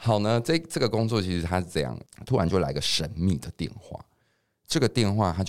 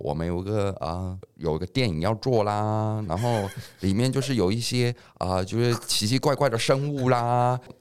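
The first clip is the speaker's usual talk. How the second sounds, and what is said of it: Hong Kong-accented non-standard Mandarin. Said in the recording (Chinese): “他讲的是香港的口音，那讲的不是很标准的那个国语”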